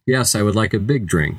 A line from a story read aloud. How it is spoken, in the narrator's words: said Mrs